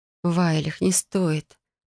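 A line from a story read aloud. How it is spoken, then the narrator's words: Mumbled. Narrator (Russian): пробормотала я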